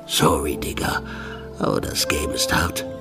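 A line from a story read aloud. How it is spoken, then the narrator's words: Murmured. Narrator (German): murmelte er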